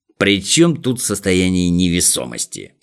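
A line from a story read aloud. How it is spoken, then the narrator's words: Muttering professor. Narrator (Russian): буркнул профессор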